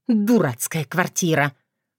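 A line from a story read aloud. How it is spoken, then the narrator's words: Quiet angry hiss. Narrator (Russian): Злобно и тихо прошипела она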